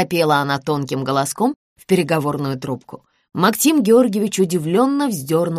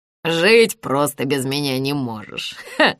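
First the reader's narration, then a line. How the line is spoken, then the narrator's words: Chuckling. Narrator (Russian): хохотнул Исмаил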